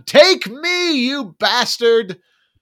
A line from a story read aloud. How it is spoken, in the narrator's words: the priest, shaken in his faith, screams at God